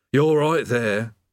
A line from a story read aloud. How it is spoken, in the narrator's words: said the demon mournfully